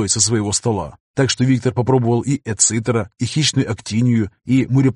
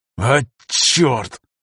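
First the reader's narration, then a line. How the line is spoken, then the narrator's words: Through clenched teeth. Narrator (Russian): процедил Афанасьев сквозь зубы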